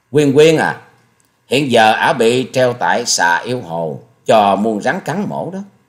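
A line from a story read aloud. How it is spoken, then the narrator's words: Slow, sneering voice. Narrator (Vietnamese): Hà Xà Tiên Tử tống lệ lệ cười khẩy, rồi giọng chậm rãi nói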